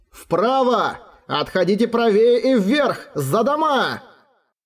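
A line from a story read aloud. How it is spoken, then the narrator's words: Shouting. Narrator (Russian): закричал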